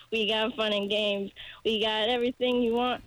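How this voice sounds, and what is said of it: Hoarse singing voice. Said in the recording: “My voice is very hoarse”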